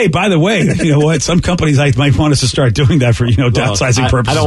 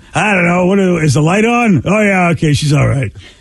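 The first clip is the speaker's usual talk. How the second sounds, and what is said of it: Impression of Steve Miggs. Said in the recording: “I'm Steve Miggs. ... That was a great impression. ... Yeah, yeah, that was really good.”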